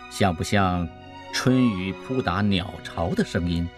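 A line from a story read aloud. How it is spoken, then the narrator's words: Soft question. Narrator (Chinese): 陈光远的神态也变得极为专注，如同静神，轻声问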